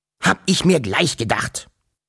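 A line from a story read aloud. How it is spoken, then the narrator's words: Grunted in worse mood. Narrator (German): grunzte der Wawuschel-Onkel mit noch schlechterer Laune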